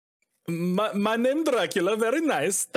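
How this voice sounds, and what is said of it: Borat impression accent. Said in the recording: “doing a Borat impression. He sounds exactly like Borat. ... It doesn't sound like a Transylvanian accent. It sounds like a wherever the hell Borat was from accent.”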